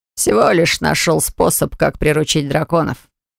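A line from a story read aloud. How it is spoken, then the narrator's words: Reply with a snort. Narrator (Russian): ответил Оливер и хмыкнул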